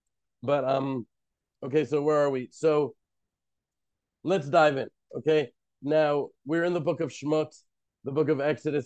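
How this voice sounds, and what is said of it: Hoarse, fading voice. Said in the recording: “I am now losing my voice.”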